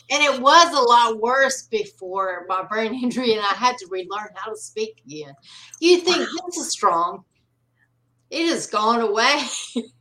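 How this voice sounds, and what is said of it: North Carolina Southern accent. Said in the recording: “I so love your accent ... I'm in North Carolina ... it is absolutely charming”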